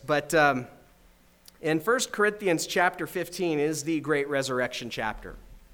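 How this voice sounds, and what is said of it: Strained, failing voice. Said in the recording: “I apologize, my voice is failing.”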